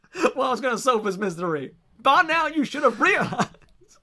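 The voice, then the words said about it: Put-on accent while singing. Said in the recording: “would your brother criticize your accent there? ... I thought it was quite good.”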